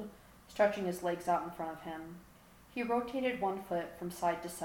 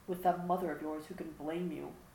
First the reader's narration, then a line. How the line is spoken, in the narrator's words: He mumbled